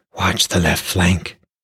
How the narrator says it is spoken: his Fogia whispered

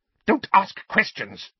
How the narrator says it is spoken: Aunt Petunia snapped

